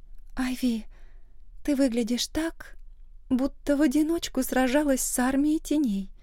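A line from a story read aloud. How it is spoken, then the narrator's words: Quiet nervous joke. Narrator (Russian): тихо пошутила Эмма, хотя выглядела взволнованно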